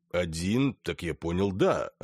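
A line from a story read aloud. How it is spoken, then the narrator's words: Plain. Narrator (Russian): ответил переводчик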